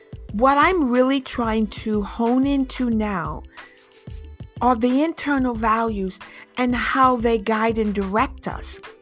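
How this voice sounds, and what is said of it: Mild mixed French accent. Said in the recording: “my French accent is probably not as deep as some of my friends back home in Paris ... I've picked up many accents all combined to sound the way that I do now”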